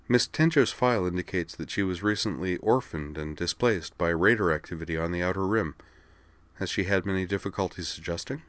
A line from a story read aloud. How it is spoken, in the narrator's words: said Kate evenly